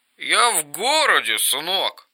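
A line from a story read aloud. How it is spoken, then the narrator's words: Barely audible, near tears. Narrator (Russian): Еле слышно проговорил, будто вот-вот расплачется, и глубоко вздохнул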